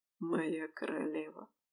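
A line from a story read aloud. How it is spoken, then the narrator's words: Soft whisper in ear. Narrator (Russian): тихо шептать на ухо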